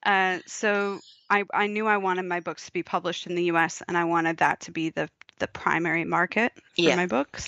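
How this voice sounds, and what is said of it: American accent. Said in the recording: “If you can't tell from my accent, people, that's where I'm from.”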